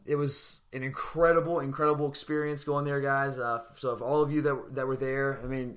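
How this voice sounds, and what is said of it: Worn, not fully there voice. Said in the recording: “my voice is, it's not all the way there coming back from South Bend”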